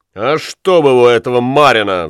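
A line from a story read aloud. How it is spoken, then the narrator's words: Roared. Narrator (Russian): взревел он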